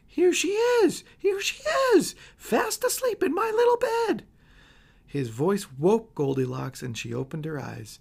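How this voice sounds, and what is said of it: Squealing tiny high-pitched voice. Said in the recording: “squealed in his tiny wee voice”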